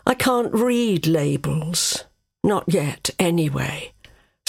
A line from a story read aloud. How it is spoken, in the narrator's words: sighed Android